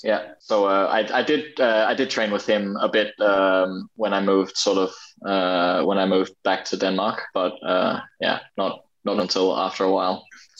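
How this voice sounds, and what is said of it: Mixed, not strongly Australian accent. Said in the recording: “So your accent's a little bit strange. ... I've never had the sort of the most Australian accent ... I kind of meld my accent a little bit”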